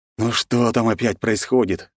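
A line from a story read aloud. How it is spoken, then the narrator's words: Grumbled displeasedly. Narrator (Russian): недовольно пробурчал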